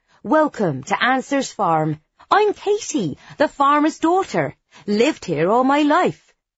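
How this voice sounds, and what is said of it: Broad West Country accent. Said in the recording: “I greet her in my broadest West Country accent.”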